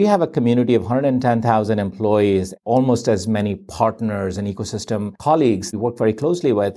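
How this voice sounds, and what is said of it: Usual voice. Nothing is said of it.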